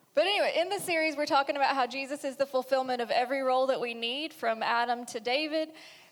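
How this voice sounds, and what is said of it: Thick rural regional accent. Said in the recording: “she's got that real thick accent, you know? And Matt says that my accent's gotten thicker ... just trust the hick”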